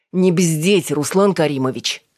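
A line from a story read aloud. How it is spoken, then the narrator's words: Barking. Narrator (Russian): рявкнула Алина в стиле брата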